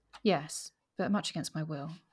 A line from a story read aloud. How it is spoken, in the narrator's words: said